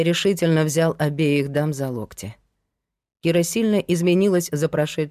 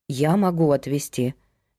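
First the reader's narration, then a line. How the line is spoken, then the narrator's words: Hesitant offer. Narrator (Russian): неуверенно предложила Лена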